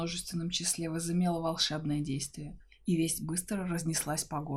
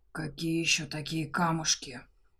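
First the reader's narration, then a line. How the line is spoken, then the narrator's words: Furious dragon hiss. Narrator (Russian): Разъяренно прошипел дракон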